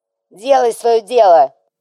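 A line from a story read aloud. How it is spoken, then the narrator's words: Furious barking shout. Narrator (Russian): бешено рявкнул четырехрукий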